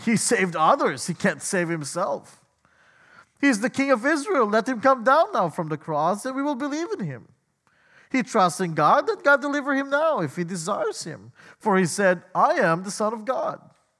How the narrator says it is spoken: the chief priests with the scribes and elders mocked him, saying

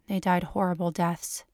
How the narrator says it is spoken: she says in a flat voice

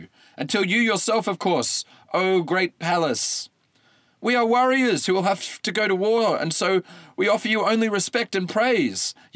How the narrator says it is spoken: yelled Maeon, the wiser of the two

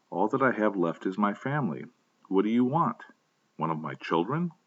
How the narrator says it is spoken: He exclaimed

